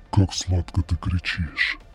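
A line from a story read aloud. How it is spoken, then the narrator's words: Eerie otherworldly masked voice. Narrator (Russian): Произносит свою первую фразу жутким потусторонним голосом, будто в его маске есть устройство, меняющее его с человеческого на загробный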